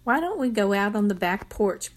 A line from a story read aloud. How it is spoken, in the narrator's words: Bertha said